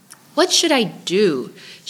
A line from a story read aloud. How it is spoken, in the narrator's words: begged